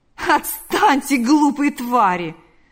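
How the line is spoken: Laughing. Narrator (Russian): сказал, рассмеявшись, Лукьян

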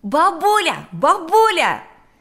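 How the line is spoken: Shouting from doorway. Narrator (Russian): закричал он с порога

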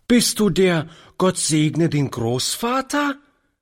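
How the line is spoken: Lively child calling. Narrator (German): rief die Kleine lebhaft

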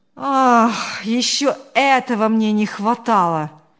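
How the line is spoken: Sigh. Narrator (Russian): вздохнул Павел

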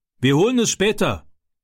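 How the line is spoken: Shout. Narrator (German): rief er

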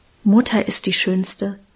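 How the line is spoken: Whisper. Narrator (German): flüsterte

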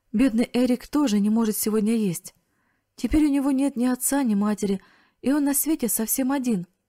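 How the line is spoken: Sobbing loudly, through tears. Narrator (Russian): Она разразилась громкими рыданиями и произнесла сквозь слезы

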